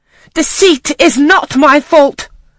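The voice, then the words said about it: Savage, high-pitched cry. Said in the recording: “I cried out in a savage, high voice.”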